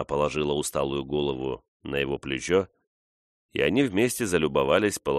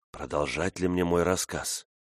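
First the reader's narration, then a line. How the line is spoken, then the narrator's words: Whispered. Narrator (Russian): он прошептал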